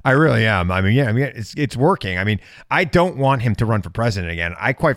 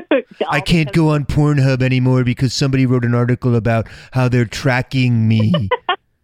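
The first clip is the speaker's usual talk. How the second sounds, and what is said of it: Imitates another person's voice. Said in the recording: “I'm getting that impression down.”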